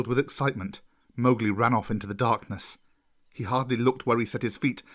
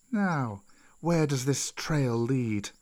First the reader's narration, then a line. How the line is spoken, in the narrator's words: Kaa asked in a gentler voice